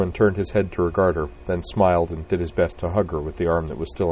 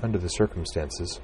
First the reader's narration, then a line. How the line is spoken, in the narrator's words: said Utrina softly